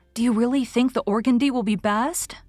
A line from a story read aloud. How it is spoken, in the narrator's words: queried Anne anxiously